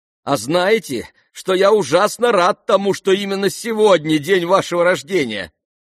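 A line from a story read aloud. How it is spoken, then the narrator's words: Shouted. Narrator (Russian): прокричал Ипполит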